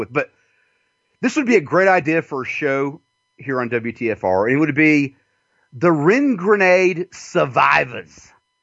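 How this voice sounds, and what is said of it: Redneck Southern American accent. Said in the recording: “I have a redneck fucking southern accent”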